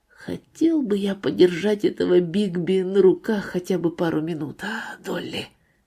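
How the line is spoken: Whispering. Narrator (Russian): сказал шепотом

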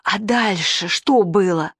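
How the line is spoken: Whispered question. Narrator (Russian): Даша Крюкова спросила шепотом

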